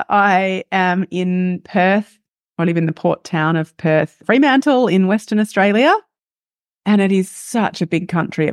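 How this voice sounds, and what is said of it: Australian accent. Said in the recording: “as you can hear by my accent, am Australian”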